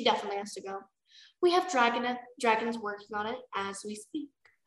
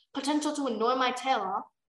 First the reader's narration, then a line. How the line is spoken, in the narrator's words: Blister growled